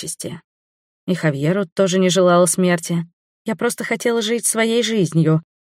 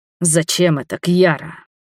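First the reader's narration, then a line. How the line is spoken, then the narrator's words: Bestial furious growl. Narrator (Russian): Зверем прорычал он, не скрывая ярости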